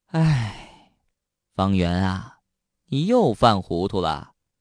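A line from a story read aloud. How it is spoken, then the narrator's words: Long, slow sigh. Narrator (Chinese): 徐招娣悠悠的叹了一口气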